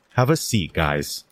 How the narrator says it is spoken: says Miss Kelly as she takes a deep sigh

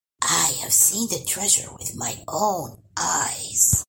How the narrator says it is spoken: Eyes sparkling, Grandpa whispered

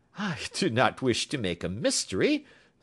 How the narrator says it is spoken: said he, laughing

